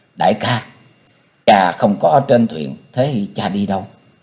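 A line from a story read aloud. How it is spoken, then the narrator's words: Soft question. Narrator (Vietnamese): nàng khẽ hỏi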